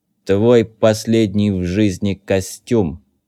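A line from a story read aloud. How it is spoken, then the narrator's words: Sepulchral announcement. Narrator (Russian): Загробным голосом возвестил Зет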